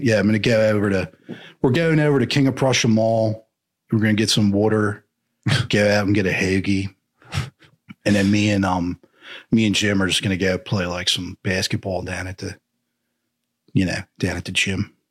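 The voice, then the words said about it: Put-on Philly accent, slightly Southern. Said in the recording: “the Philly accent ... it sounds a little Southern ... a little surferish sometimes”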